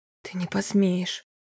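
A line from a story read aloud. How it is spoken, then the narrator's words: Hoarse rasp. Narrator (Russian): прохрипела она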